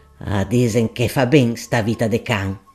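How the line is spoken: Grumbled. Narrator (Italian): borbottò Gaudenzio

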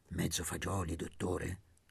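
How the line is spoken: Very low voice. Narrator (Italian): a bassissima voce

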